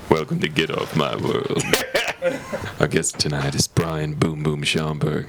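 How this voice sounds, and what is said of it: Cool late-night radio DJ voice. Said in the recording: “It's time for the cool late night DJ voice.”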